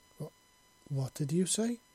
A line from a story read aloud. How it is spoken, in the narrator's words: he stammered